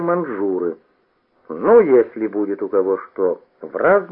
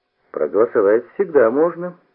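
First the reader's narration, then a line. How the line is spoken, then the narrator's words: Surprisingly calm. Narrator (Russian): сказал удивительно спокойно Коломеец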